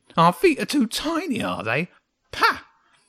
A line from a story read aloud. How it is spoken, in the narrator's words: It spat again